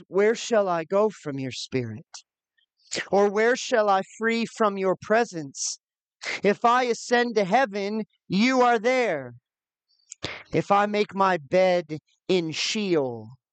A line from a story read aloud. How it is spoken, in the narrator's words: The psalmist cries